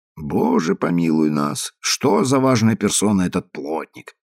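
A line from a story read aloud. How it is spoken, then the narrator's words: Muttering to himself. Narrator (Russian): проворчал про себя негр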